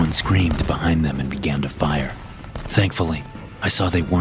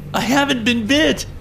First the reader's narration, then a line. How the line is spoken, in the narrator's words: I screamed